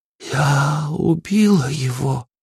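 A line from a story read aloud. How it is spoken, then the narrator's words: Muffled, hollow voice. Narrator (Russian): глухо произнесла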